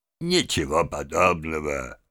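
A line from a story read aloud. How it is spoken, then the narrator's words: Mumbling with faint smile. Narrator (Russian): мистер Джабс лишь едва улыбался и бормотал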